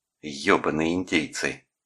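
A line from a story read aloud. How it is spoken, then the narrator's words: Hissed through teeth. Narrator (Russian): процедила она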